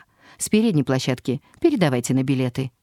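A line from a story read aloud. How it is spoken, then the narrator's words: Sharp call. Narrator (Russian): кондуктор прикрикнула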